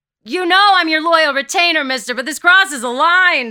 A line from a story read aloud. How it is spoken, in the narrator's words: shouts Peter